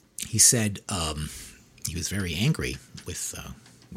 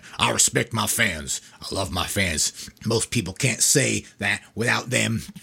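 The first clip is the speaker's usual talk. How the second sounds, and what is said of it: Put-on Florida accent. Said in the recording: “He's a Florida man, right? ... Florida accent, right?”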